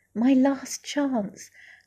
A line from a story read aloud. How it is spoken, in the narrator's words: gasped Duffy